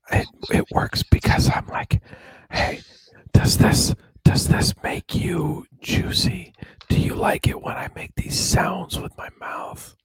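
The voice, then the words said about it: Whispered ASMR-style voice. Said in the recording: “Whisper ... I'm not whispering anymore. I'm not doing any more ASMR ... It's weird talking like that.”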